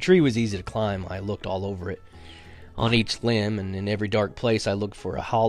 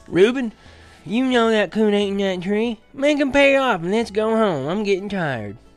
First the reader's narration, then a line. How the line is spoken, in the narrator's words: In a whining voice, Rainey said